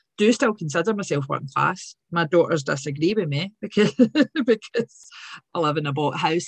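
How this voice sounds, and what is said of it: Glaswegian working-class accent. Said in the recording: “So from Govan, grew up in Govan ... I'm very proud of my working class accent.”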